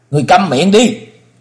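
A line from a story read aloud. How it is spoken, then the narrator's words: Agitated trembling shout. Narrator (Vietnamese): Tiếng quát của chàng, vì quá kích động, thân hình run lẩy bẩy, nói không nên lời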